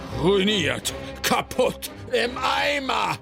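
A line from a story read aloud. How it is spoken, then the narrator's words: Screaming. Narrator (German): schrie Schnöpf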